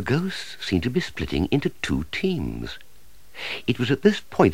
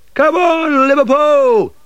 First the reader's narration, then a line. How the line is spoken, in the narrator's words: shouted Stephen